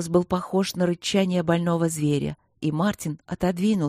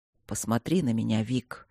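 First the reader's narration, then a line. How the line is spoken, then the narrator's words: Surprisingly soft request. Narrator (Russian): попросил Мартин удивительно мягко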